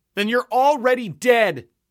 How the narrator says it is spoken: yelled

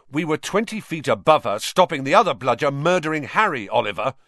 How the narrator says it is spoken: said George angrily

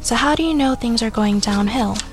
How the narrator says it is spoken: Morrie sighed

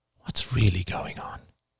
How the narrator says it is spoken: whispered

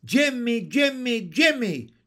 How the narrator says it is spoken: shouted a chorus of froglets

